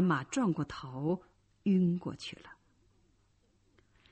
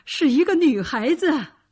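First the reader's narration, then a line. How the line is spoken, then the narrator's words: Shouting. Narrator (Chinese): 包法利喊着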